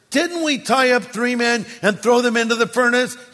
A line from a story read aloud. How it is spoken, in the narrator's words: Nebuchadnezzar jumped up in amazement and exclaimed